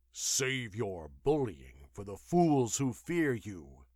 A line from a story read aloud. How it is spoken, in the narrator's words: he growled